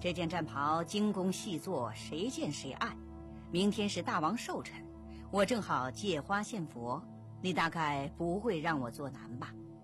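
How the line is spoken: Smiling flatterer. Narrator (Chinese): 马屁精师爷 笑眯眯地说

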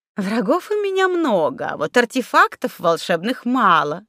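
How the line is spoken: Laughing. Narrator (Russian): рассмеялась Зюльфира

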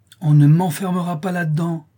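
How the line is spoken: Determined child exclaiming fiercely. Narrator (French): s'écria l'enfant déterminé, dont les yeux brillaient comme ceux d'un jeune chat sauvage

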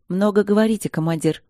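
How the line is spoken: Calm, barely challenging. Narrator (Russian): спокойно произнесла дробжик, почти без вызова

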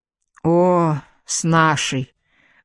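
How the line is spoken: Bitter sigh. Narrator (Russian): горько вздохнула его собеседница

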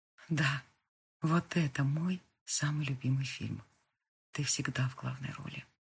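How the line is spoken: Whisper in the ear. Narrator (Russian): прошептал ей на ухо

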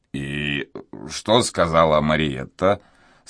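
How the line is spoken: Stern innkeeper's question. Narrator (Russian): спросил трактирщик строгим голосом

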